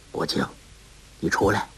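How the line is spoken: Soft voice. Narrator (Chinese): 有人以汉语轻声说

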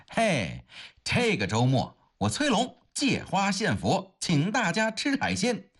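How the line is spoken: Loud announcement. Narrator (Chinese): 在众人的哄笑之中，崔龙大声地宣布

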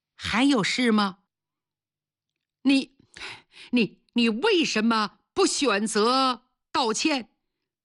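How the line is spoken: Stammering. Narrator (Chinese): 经理说这话结结巴巴的

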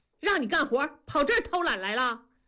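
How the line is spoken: Yelling. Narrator (Chinese): 庄嫂吼了一声

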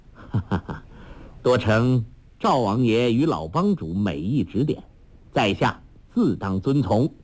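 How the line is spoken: Laughing. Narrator (Chinese): 杨康笑道

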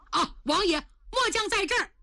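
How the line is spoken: Shouting downward. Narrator (Chinese): 塔扎冲下边喊了一声

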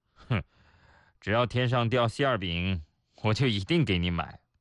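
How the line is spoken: Boy, flat. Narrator (Chinese): 男孩淡淡地说

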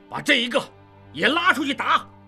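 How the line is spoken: Furious. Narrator (Chinese): 玉贤大怒

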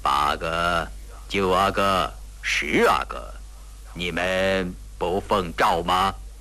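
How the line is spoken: Cold question. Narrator (Chinese): 隆科多冷冷问道

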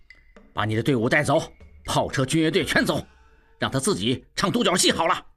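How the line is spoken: Angry. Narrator (Chinese): 怒冲冲

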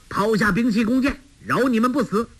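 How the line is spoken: Officer shouting command. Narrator (Chinese): 带队的军官叫道

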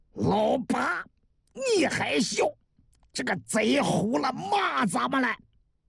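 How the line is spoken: Furious. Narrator (Chinese): 韩六十三大怒

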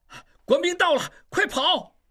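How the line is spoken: Alarmed shout. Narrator (Chinese): 应英脸色急变，大喊道

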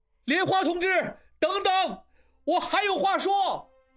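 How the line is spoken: Shouting while riding. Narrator (Chinese): 他再次催马追去，大喊着

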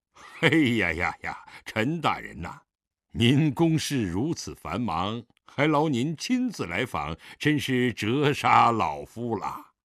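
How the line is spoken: Smiling greeting. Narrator (Chinese): 狄仁杰含笑招呼道

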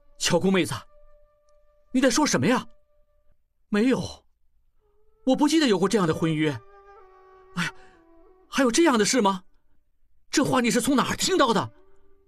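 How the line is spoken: Shocked, loud. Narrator (Chinese): 应季心中惊雷阵阵，大声回答

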